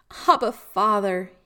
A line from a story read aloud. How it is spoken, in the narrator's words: he cried out